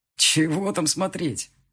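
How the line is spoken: Snorted. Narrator (Russian): фыркнул Марат

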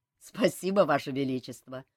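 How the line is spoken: Laughing. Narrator (Russian): засмеялся Жак

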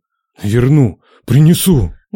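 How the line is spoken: Muffled, tense. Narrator (Russian): глухо сказал Нечай, чувствуя, как лихо колотится сердце о ребра

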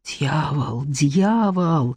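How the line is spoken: Whispering monks. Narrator (Russian): зашептали монахи

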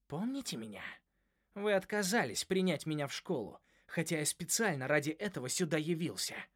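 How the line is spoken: Hiss. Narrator (Russian): прошипел оборотень

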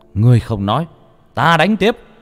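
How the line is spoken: Screaming. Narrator (Vietnamese): Ông Kiên gào thét

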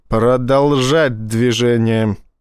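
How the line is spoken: Hostile, through teeth. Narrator (Russian): неприязненно процедил Боровский

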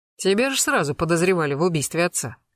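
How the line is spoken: Wry snort. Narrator (Russian): хмыкнул Гектор

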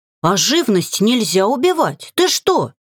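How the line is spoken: Exclamation. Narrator (Russian): воскликнула Агги

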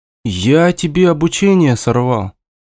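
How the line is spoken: Guilty tone, brother. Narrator (Russian): виноватым тоном спросил брат

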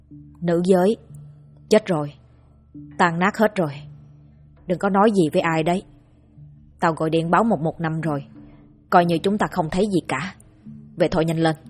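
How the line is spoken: Harsh, stern voice. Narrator (Vietnamese): Anh Huy gằn giọng

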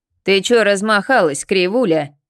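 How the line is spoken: Indignant roar. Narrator (Russian): взревела возмущенная матреша

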